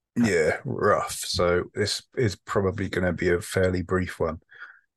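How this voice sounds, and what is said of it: Husky, rough voice. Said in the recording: “He's got a cold... you can probably hear in my voice that I'm kind of fucked... sounds quite sexy... It's very husky”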